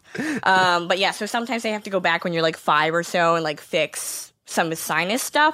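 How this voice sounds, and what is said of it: Nasal Western New York accent. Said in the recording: “they think I talk nasal ... No, I'm from Western New York. This is how we talk.”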